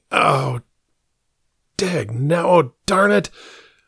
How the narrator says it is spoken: moaning

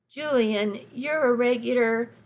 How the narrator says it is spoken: I laughed

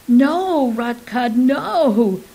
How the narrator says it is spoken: cried the others

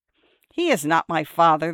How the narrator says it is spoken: the girl replied scornfully

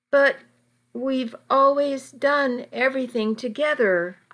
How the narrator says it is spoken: I sobbed

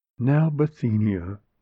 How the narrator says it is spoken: she said kindly

